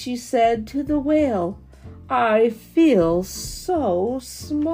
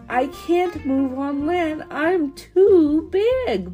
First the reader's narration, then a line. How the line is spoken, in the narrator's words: moaned the whale